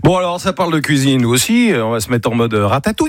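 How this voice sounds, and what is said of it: Strong English accent in French. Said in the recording (French): “t'avais un accent anglais de merde”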